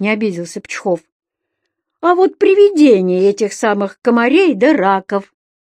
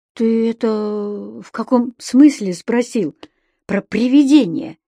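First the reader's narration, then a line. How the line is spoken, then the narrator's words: Quiet inquiry. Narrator (Russian): тихо осведомился Пчхов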